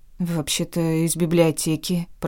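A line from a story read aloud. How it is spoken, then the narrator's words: Flustered mumble. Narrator (Russian): пробормотала я, растерявшись от подобного напора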